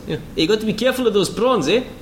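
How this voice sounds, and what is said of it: Put-on South African accent. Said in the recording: “we haven't done the South African accent at all this podcast”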